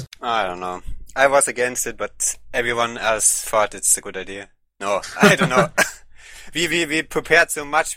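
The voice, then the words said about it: German accent. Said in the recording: “if you want to hear a quintessential German accent, listen to ... It is beautiful.”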